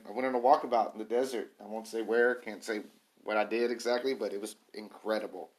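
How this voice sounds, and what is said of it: Hoarse, strained voice. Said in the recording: “I'm losing my voice right now.”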